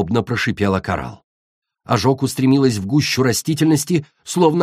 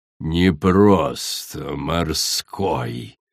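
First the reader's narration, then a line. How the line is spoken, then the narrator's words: Hissing. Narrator (Russian): прошипела подлетевшая Коралл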